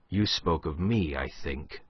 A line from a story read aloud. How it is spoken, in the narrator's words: said the Marquis quietly